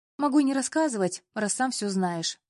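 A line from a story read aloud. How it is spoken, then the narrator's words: Snapping back. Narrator (Russian): огрызнулась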